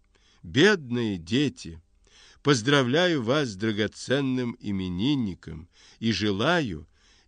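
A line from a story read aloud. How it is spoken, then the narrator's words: Loud, almost shouting. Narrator (Russian): громко чуть не кричит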